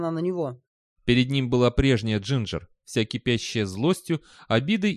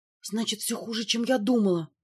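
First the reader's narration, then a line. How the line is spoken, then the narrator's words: Whispered. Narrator (Russian): прошептала она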